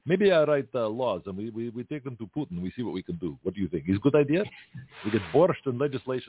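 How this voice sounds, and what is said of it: Bad put-on Russian accent. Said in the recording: “Sorry for my bad accent”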